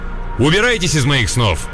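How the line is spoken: Stern shout. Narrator (Russian): прикрикнуть строгим голосом

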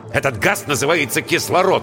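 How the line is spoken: Irritated. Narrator (Russian): раздраженно сказал Воронцов

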